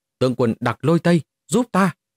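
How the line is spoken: Terrified loud shout. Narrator (Vietnamese): Mục Thiên Hoa lập tức quá sợ hãi, cao giọng hô to

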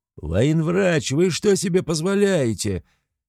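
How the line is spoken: Shouted. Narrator (Russian): закричал

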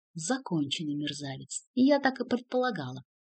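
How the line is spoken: Muttered aloud. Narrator (Russian): пробормотал вслух Ремика

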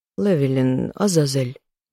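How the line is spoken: Old woman sighing. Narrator (Russian): вздохнула бабушка

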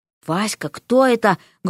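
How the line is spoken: Loud whispered question. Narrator (Russian): громким шепотом поинтересовалась мать

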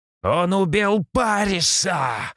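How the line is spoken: Shouting warrior. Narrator (Russian): закричал один из воинов

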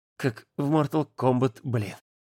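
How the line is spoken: Trembling whisper. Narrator (Russian): Дрожащим шепотом сказал он

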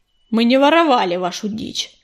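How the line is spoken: Snapping back. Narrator (Russian): огрызнулся чернохват

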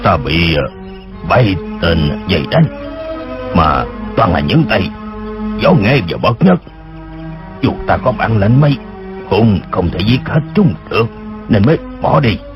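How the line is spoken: Voice shifting shrill and deep. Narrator (Vietnamese): Tiếng người khi the thé khi ồm ồm kia nói

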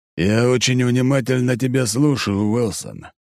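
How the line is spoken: Grim speech. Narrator (Russian): мрачно произносит Одноглазый

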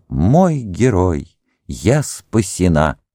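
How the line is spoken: Girl exclaiming. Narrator (Russian): Девушка, которую звали Урсула, воскликнула

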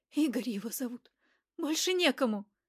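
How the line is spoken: Quiet, dejected, forced out. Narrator (Russian): Тихо упавшим голосом выдавила из себя Вероника

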